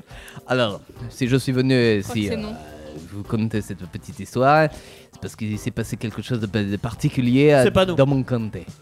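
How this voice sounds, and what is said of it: Put-on Marseille French accent. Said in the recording (French): “Vous n'avez pas trop l'accent anglais ... Il est marseillais, là ... J'ai plus l'accent marseillais”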